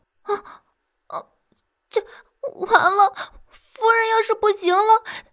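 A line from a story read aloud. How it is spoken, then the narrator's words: Tearful voice. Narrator (Chinese): 小欢瞧着夫人的脸色，终于忍不住带着哭腔道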